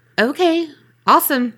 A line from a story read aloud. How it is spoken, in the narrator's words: replied kind of nervously